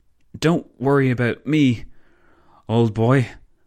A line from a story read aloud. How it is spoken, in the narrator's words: the Belgian stammered